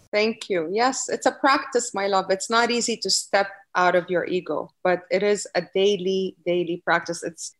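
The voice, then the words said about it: Noticeable foreign accent. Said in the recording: “I think everyone's picking up on your accent a little bit.”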